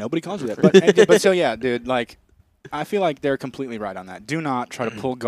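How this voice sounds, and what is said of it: Usual voice. Nothing is said of it.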